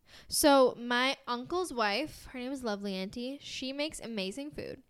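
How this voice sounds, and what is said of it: American accent. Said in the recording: “my American accent... my American white girl accent”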